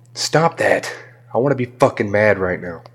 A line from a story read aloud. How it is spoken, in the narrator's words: growled out